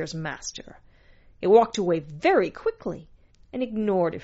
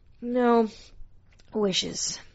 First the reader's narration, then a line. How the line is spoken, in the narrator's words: mumbled Zir's master